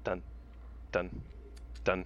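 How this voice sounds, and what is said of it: Spaced repeated words imitating an ellipsis. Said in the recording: “That was my impression of an ellipsis, you know, the three dots.”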